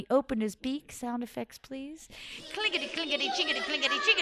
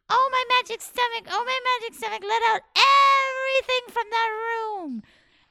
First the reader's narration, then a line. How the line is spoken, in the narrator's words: he called out